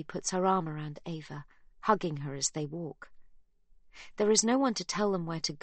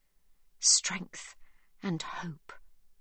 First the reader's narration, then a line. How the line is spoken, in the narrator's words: Magda mutters